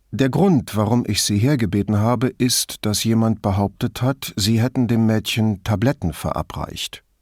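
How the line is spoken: Hesitant. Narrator (German): begann er zögernd

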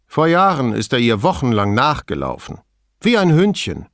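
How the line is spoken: Plain. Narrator (German): sagte sie

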